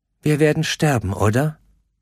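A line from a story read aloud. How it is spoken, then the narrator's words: Calm question. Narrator (German): fragte sie ruhig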